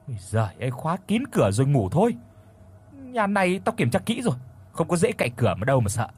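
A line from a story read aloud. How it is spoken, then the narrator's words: Grumbling. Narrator (Vietnamese): Cô cằn nhằn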